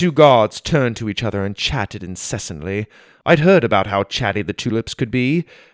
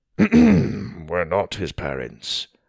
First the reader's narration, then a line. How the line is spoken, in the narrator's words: Daz said under his breath